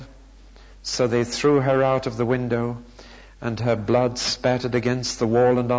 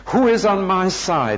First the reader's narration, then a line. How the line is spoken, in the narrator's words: He shouted